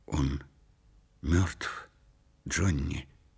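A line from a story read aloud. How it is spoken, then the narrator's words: Quiet. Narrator (Russian): негромко произнесла Делла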